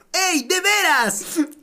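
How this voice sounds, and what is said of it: Imitates Naruto cartoon character voice. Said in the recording (Spanish): “hacer la voz de Naruto”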